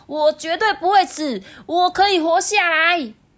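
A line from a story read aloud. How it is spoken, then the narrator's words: Repeated self-encouraging shouting. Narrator (Chinese): 反复不停的向自己喊话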